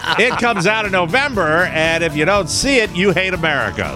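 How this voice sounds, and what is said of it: Tom Hanks impression. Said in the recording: “do a Tom Hanks impression”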